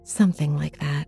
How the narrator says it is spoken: I sighed

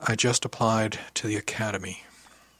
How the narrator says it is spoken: took a deep breath and let it out before I said very softly

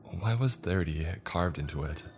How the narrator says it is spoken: asked my girlfriend

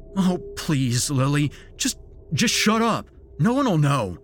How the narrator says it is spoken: he stammered

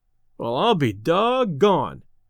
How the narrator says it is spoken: exclaimed Delaney

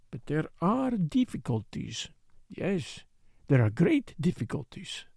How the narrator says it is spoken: he murmured to himself

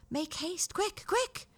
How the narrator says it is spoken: cried he

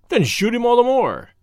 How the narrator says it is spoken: cried the poet impatiently

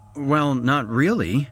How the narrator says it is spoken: I stammered

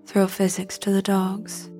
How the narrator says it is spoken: he said

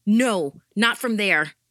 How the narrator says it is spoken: shouted into the phone

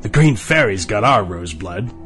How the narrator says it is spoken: the Max in the arch laughed

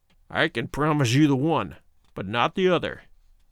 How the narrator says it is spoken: he snarled

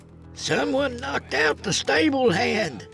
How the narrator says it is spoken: an elderly man shouted

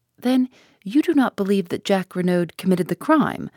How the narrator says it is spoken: I asked eagerly

